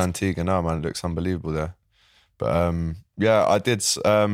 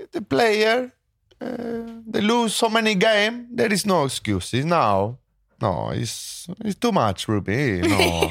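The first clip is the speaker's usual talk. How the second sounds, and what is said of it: Italian-accented impression of another person. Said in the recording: “I did an Antonio Conte impression ... Conte is Italian”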